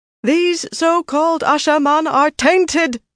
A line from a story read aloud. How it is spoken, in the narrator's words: Saroya called out, with no sign of the vaunted white Aja reserve